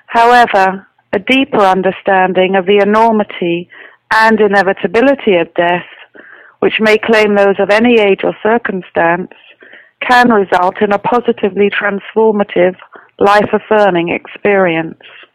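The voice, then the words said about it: Southern English accent. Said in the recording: “you have some sort of an accent there ... I actually come from England, the south coast of England. I'm sure that's the accent.”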